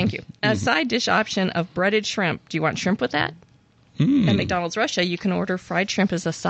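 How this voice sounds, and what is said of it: Usual voice. Nothing is said of it.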